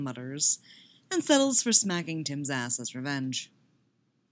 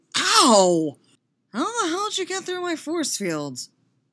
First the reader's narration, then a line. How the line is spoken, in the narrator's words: Con whines, cradling his smarting face